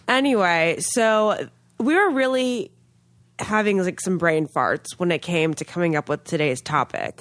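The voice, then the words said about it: Congested, nasal voice from cold. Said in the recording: “I have a cold, so please pardon my nasal-sounding voice ... You sound so snobby ... sound really snobby with my nose clogged”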